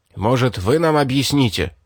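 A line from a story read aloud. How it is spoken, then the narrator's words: Sharp. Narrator (Russian): резко сказал тот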